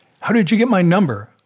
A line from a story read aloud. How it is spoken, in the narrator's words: asked, raising my voice with the full intention of hanging up